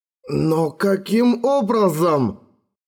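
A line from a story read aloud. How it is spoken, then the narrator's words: Exclaimed. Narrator (Russian): воскликнул он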